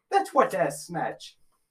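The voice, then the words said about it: Slight put-on Irish accent. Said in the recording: “That sounded a little Irish.”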